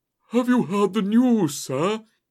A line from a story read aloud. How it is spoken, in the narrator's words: he gasped